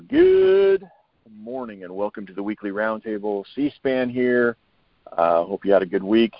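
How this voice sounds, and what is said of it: Rough, strained voice. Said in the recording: “my voice sounds terrible ... this pollen will get dropped and get gone, and all of us can get our voices back”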